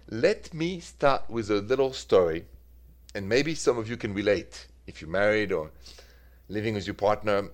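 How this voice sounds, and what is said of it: French accent. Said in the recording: “The accent is French ... straight from Paris”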